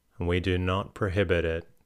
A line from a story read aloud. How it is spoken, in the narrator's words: drawing a deep breath that sounded like a sigh